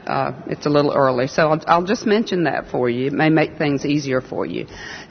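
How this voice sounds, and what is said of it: Southern American accent. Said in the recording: “I've been told I have a southern accent”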